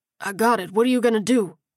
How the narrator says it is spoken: He grunted

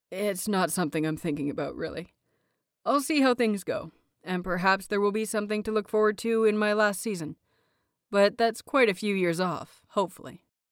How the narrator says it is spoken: He gave a soft chuckle and answered

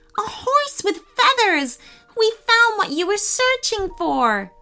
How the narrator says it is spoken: said Nia excitedly

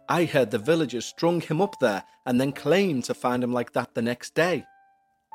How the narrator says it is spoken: replied Michael

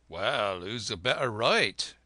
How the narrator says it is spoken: growled the gamekeeper

